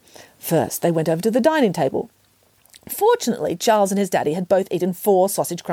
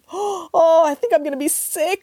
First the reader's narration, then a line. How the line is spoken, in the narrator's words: wailed Lucy